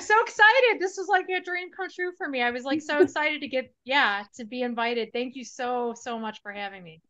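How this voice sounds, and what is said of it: Chicago Midwestern accent. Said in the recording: “can't you hear all the Chicago under there? ... Midwest. ... I still have the accent ... You do have that accent.”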